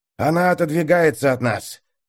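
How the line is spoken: Hoarse wheeze. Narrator (Russian): прохрипел маг впереди

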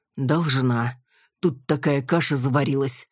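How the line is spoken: Breathless exhale. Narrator (Russian): выдохнул Валентин

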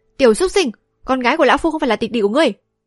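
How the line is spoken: Loud shout. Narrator (Vietnamese): Hoạt Diêm Vương La Tù quát to

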